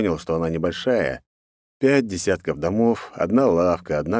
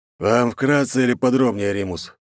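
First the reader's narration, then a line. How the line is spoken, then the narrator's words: Dry question. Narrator (Russian): сухо спрашивает Торн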